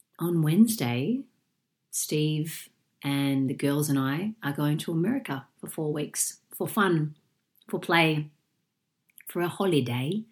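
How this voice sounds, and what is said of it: Sick, deep chesty voice. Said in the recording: “I'm a bit sick at the moment ... if I sound like Darth Vader and if I have a little few coughs like that ... The bug is in my chest and I sound like a sick dog”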